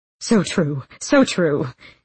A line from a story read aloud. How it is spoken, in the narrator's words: he laughed nervously